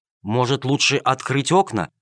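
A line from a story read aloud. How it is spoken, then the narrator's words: Timid question. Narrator (Russian): робко спросил Джельсомино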